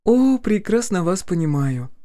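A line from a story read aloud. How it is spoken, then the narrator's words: Sighing. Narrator (Russian): вздохнула Полина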